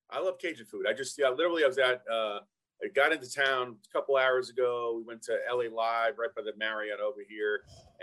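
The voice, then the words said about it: Brooklyn New York accent. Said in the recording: “From Brooklyn, New York ... You can tell by the Brooklyn accent.”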